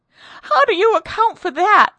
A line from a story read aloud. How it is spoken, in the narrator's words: she cried